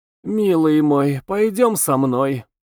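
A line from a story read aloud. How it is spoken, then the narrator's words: Purring in ear. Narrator (Russian): стала мурлыкать в ухо ему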